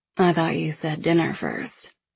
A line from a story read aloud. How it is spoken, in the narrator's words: I murmur against his lips